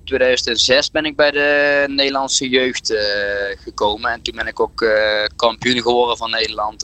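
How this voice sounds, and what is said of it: Brabant Dutch regional accent. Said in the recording (Dutch): “kunnen de mensen denk ik al wel aan je, aan je accent horen. Je, je, komt uit, eh, uit Brabant.”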